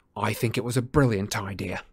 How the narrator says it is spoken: said Harry coldly

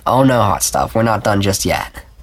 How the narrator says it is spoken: he chuckled raggedly

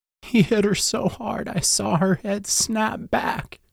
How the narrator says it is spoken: Jill sobbed

